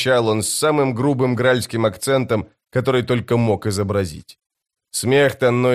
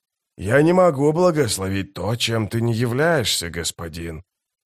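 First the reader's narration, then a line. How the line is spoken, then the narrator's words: Quiet. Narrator (Russian): тихо проговорил он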